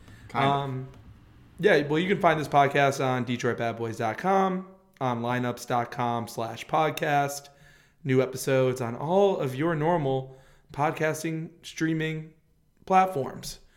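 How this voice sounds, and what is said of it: Slightly raspy voice. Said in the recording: “My voice is a little, you know, little raspy”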